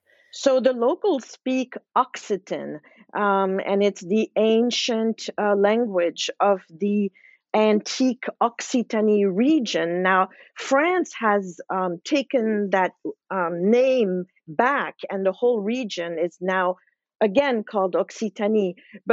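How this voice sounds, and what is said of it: Slight French accent. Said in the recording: “as our listeners can hear, you have a slight French accent. You grew up speaking French because you grew up in Switzerland.”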